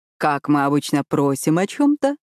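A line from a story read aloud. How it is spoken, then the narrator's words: Purring. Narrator (Russian): промурлыкал Люка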